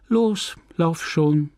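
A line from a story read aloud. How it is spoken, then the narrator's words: Added sadly. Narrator (German): fügte sie traurig hinzu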